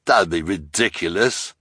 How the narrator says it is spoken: the hook-handed man said with a sneer

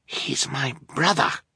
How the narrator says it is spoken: Fiona replied in a fierce whisper

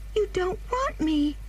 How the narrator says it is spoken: cried the child suddenly

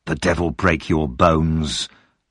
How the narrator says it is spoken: the man said through his teeth

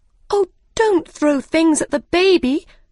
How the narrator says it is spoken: cried Alice

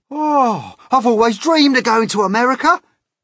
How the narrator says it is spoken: cried the centipede

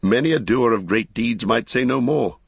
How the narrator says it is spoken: said Ingold

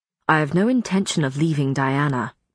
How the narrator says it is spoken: Matthew said icily

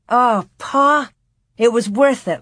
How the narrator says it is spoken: Laura said breathlessly

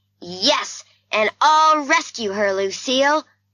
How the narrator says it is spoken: shouted Nicky

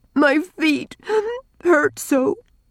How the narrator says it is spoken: sobbed Rilla, clinging to the last shred of her pride

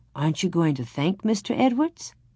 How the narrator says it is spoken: Ma said gently

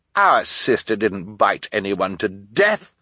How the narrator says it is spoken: Violet said indignantly, a word which here means in defense of an innocent baby

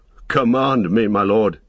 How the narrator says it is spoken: he cried

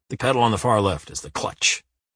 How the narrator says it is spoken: he grunts in the end

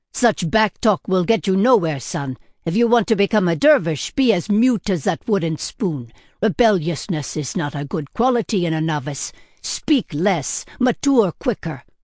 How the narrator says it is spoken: yelled at the top of his lungs

